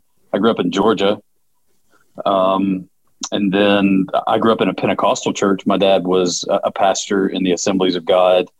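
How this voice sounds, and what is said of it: Southern US accent. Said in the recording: “I grew up in the South as well. You can hear with the accent.”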